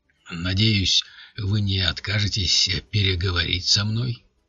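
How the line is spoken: Deep voice. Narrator (Russian): произнес вошедший глубоким голосом

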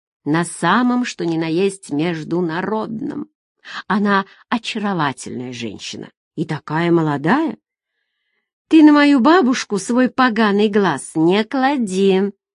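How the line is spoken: Hissed. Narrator (Russian): зашипела Нина

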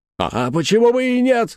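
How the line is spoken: Angry shout. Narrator (Russian): закричал дядюшка Антифер, и его щеки побагровели

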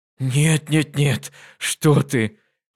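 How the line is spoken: Exclaimed. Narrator (Russian): воскликнул Твади

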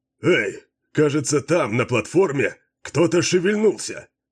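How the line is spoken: Shouting. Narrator (Russian): крикнул Баллард

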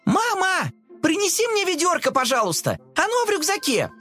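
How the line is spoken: Shouting. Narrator (Russian): Она закричала

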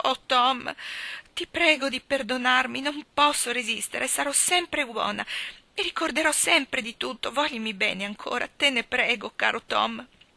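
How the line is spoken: Sobbing plea. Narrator (Italian): singhiozzando

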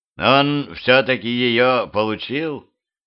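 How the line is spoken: Gloomy. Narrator (Russian): мрачно сказала Дуся

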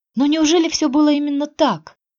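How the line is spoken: Desperate exclamation. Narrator (Russian): отчаянно воскликнула она

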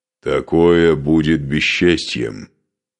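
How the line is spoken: Muffled low voice. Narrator (Russian): глухо проговорил Скарпи

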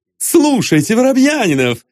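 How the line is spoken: Shout. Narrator (Russian): закричал Остап

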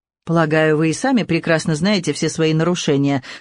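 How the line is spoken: Dry reply. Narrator (Russian): сухо ответила инспектор

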